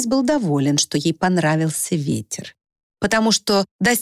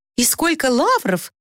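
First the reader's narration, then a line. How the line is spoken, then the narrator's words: Exclaiming. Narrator (Russian): воскликнула она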